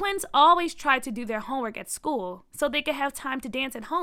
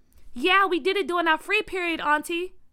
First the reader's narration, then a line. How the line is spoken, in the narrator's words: Byron yelled back